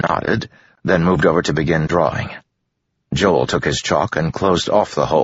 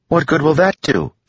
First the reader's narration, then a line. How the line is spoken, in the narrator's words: she asked, drawing urgently